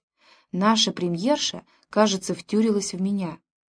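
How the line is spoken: Whisper. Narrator (Russian): он мог шепнуть

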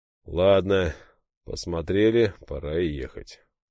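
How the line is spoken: Sighing. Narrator (Russian): вздохнул Дмитрий

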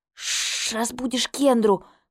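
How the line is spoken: Loud whisper. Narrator (Russian): громким шепотом ответила

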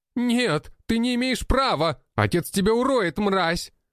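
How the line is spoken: Shouting. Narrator (Russian): прокричал тот

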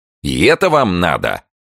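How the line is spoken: Near growl. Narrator (Russian): почти зарычал Петр

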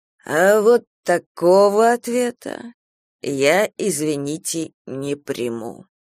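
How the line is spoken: Muttered through teeth. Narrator (Russian): процедил собеседник Надежды

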